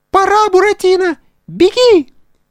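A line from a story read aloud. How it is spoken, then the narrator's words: Squeak close to ear. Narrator (Russian): пискнула ему над ухом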